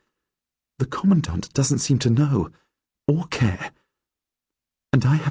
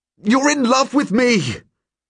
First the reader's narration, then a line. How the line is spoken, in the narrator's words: I shout at her now because I'm so angry at her for loving me